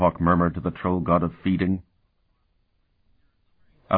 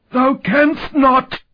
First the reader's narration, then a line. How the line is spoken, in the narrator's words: Azash shrieked